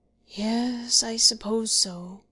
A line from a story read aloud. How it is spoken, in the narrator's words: groaned the poor old man slowly